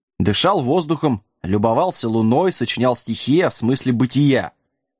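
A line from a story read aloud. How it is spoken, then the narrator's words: Snapping back. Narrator (Russian): огрызнулся Сэм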